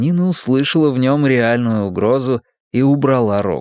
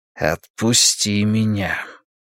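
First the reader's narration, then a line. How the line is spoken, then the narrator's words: Quiet grating voice. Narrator (Russian): произнес он напоминавшим скрежет тихим голосом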